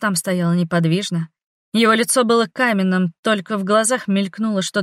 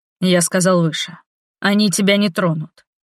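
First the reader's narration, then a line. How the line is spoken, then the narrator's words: Through clenched teeth. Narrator (Russian): Процедил он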